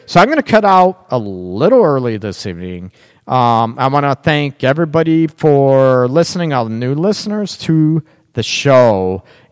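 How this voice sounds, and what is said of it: Worn-out, nearly lost voice. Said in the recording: “My voice is gone.”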